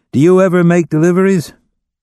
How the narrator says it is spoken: Will raised his voice, asking

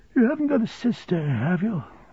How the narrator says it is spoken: said Steerforth, yawning

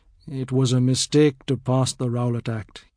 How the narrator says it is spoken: he murmurs

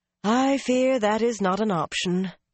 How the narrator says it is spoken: Anaya sighed

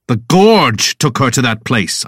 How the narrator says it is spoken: growl

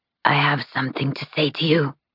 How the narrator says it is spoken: she hisses

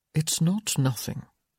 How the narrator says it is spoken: he murmured

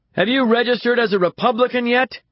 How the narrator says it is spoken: shouts a voice from the audience

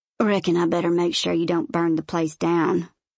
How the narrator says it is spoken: Silas grumbles

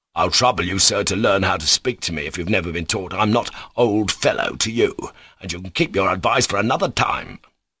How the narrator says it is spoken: Mavriki Mavrikievich snapped out savagely, as though glad to vent his wrath

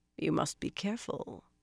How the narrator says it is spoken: Anath purred

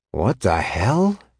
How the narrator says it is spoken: breathed

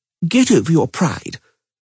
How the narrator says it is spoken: Margarita Lozantila said gravely

